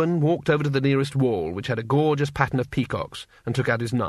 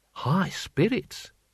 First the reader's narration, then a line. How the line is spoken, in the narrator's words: murmured Six Beneficent Winds